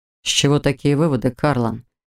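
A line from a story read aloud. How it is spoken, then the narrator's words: Calm husband asking. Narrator (Russian): спокойно спросил муж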